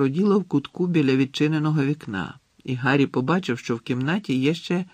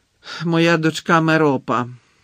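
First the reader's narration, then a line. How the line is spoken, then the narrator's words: Reluctant grumble. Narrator (Ukrainian): неохоче буркнув Гонт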